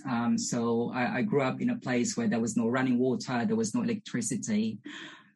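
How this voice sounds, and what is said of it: Filipino accent. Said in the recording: “As you can probably tell from my accent and my name, I'm originally from the Philippines.”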